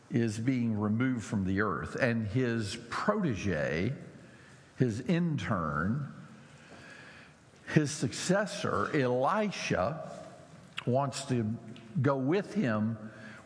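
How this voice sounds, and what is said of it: American Southern drawl. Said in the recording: “my southern drawl”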